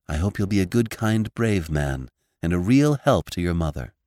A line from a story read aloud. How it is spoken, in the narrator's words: said Theodora softly